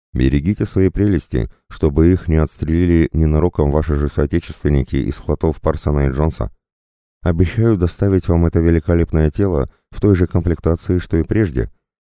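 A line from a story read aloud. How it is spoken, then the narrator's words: Playful laughter. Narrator (Russian): рассмеялась Холли, игриво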